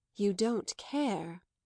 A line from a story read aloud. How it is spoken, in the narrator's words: said Madame Merle gravely